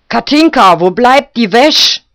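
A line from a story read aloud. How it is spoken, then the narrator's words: Old woman calling. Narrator (German): rief die alte Guschke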